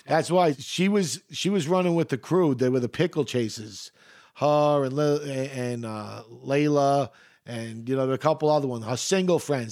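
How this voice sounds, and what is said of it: Deep Queens New York accent. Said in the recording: “a guy from Queens with such a deep accent.”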